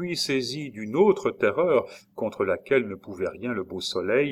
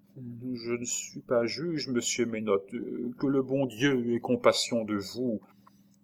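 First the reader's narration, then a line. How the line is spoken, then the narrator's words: Murmured. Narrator (French): Madeleine murmura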